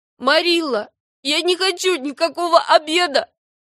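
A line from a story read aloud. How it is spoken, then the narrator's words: Sobbing. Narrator (Russian): сказала Энни, всхлипывая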